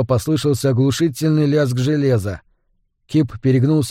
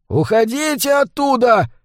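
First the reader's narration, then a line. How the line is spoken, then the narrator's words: Distant shout from boat. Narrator (Russian): закричал с траулера какой-то бородач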